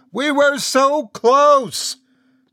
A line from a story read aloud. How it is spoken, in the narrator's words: the word continued to scream